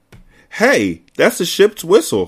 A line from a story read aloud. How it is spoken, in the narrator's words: I cried